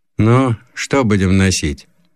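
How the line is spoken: Tired seller's question. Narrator (Russian): продавец устало спросил

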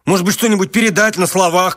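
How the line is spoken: Shouted. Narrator (Russian): крикнул он

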